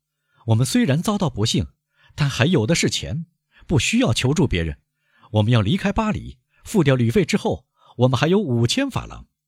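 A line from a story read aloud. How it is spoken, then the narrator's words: Smiling. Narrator (Chinese): 阿尔贝微笑着说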